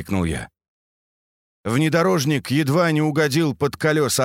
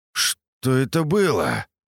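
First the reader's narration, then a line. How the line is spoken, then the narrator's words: Bewildered muttering. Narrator (Russian): растерянно пробормотал Андрей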